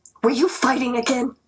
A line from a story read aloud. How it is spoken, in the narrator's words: Mom snapped